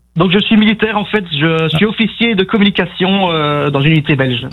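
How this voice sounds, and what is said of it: Belgian accent from Namur. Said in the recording (French): “je sens l'accent de Namur ... Namur en Belgique”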